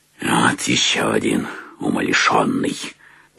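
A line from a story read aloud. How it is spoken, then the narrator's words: Muttering. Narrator (Russian): пробормотал Скрудж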